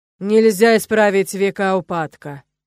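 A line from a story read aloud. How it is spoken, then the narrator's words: Ghostly wail. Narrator (Russian): взвыл призрак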